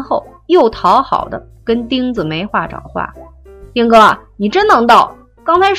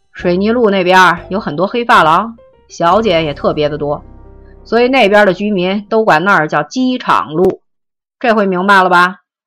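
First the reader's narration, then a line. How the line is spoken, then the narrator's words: Laughing explanation. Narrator (Chinese): 米阳一边笑一边解释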